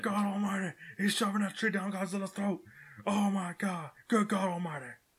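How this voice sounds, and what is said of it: Jim Ross wrestling commentator impression. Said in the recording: “just add Jim Ross on there... do the voice”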